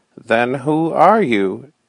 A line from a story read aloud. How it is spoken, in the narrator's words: gasped weakly